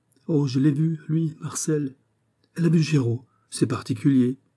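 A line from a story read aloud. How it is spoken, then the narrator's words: Exclaimed. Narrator (French): s'écria Buquet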